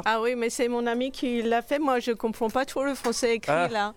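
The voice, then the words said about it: French with a slight foreign accent. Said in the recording (French): “Avec un petit accent”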